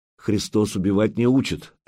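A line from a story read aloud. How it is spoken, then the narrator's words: Plain. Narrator (Russian): ответил Духарев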